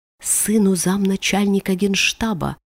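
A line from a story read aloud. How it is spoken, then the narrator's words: Answered almost in a whisper. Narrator (Russian): отвечает почти шепотом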